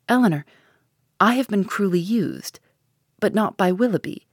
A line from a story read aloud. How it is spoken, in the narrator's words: she added in a firmer tone